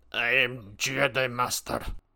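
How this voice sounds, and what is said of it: Put-on, almost Russian accent. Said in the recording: “the accent that the voice actor comes up with for him ... he's got, like, a gnarly Russian... He's got this, like, almost Russian sort of”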